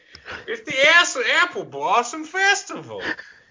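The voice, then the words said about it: Poor cartoon character impression. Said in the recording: “That was pretty bad impression of Applejack ... Sounded like Andy Griffith.”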